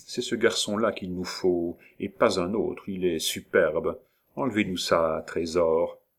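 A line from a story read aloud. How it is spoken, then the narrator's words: Whispered aside. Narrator (French): il ajouta tout bas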